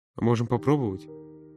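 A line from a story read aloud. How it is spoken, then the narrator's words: Muttered. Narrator (Russian): Пробормотал он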